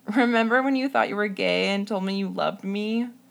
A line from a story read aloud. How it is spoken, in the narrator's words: she asked me between uncontrollable laughter